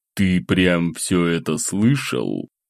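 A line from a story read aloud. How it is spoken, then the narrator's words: Through gritted teeth. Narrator (Russian): сквозь зубы процедил собеседник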